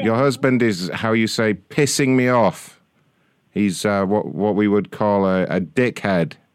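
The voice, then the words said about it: Speaks with a foreign accent. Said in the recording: “It's maybe my accent, but you're having trouble understanding me”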